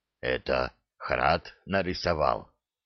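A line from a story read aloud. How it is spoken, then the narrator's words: Hoarse whisper. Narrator (Russian): хриплым шепотом спросил он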